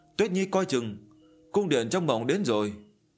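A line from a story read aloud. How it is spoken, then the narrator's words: Alarmed cry. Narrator (Vietnamese): Diệp Chi Tô thay đổi sắc mặt kêu lên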